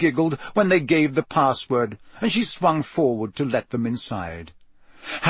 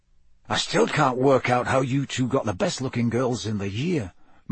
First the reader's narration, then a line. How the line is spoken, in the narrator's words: muttered Dean